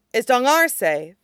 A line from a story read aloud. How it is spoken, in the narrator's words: He asks Wangxia urgently